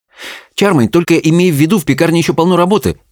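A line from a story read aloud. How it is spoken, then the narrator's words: Rapid chatter. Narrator (Russian): затараторила Белль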